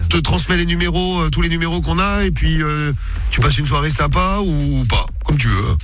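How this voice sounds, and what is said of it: Northern French accent. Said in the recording (French): “ton petit accent, il vient d'où? ... Du Nord. ... de Lille.”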